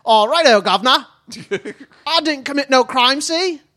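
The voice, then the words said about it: Attempted Cockney accent. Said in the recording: “Is that Cockney? Was that a Cockney accent? ... Did ... do a proper accent there?”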